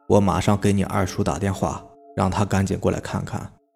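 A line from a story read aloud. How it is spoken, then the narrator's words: Old man, long sigh. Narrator (Chinese): 爷爷长长的叹了一口气，说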